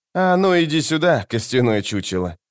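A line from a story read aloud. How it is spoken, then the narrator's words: Outwardly calm. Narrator (Russian): сказала она внешне спокойно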